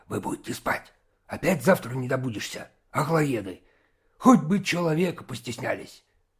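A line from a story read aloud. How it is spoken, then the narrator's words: Angry hiss. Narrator (Russian): сердито шипел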